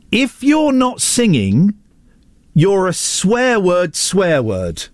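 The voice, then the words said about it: Broad northern English accent. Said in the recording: “in a broad northern accent”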